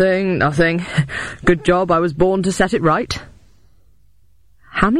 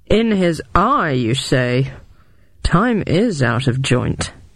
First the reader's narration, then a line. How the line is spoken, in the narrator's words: muttered